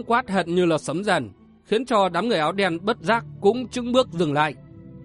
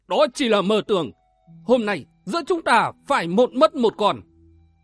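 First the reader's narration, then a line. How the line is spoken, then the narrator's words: Loud. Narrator (Vietnamese): Có kẻ lớn tiếng nói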